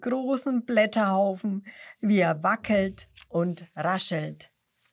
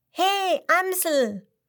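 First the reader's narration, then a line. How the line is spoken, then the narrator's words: Called out. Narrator (German): ruft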